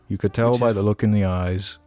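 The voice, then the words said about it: Awkward, slightly wrong cadence. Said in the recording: “that awkward, like, slightly wrong cadence”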